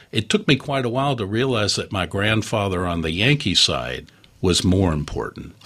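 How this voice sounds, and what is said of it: Slight Southern American accent. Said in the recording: “just a little bit of Southern accent in my voice ... I hear it.”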